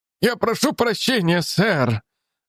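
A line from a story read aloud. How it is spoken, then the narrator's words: Moaning. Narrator (Russian): застонал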